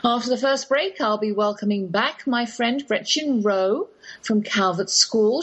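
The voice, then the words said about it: English accent. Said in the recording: “Yes, that's my English accent you're hearing.”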